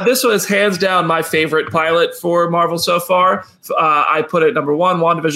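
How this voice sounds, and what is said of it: Usual voice. Nothing is said of it.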